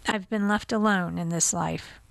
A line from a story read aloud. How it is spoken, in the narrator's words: Reyes said quietly